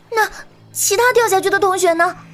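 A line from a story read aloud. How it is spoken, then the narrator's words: Trembling question. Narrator (Chinese): 沈星颤声问道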